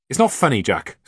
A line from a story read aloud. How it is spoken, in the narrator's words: snapped Andy